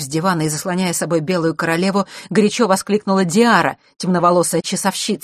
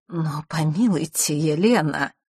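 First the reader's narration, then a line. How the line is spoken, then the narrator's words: Timid interjection. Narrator (Russian): робко вмешался Мандигор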